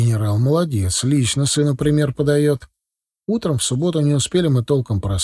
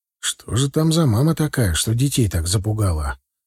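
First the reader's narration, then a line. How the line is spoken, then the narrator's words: Whispered. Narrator (Russian): Шепнул Галие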